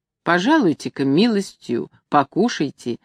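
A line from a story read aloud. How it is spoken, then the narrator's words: Gentle pleading. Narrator (Russian): ласково просил он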